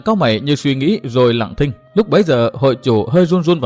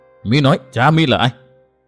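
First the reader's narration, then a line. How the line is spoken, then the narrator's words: Trembling voice. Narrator (Vietnamese): hội chủ nói giọng run run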